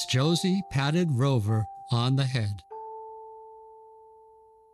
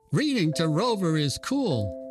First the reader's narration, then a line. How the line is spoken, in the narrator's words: exclaimed one of the boys